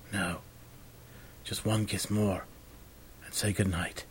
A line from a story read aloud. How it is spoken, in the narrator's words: he whispered